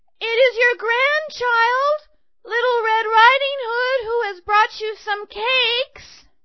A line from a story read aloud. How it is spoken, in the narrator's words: But she called out